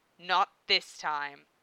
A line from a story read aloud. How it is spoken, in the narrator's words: said grimly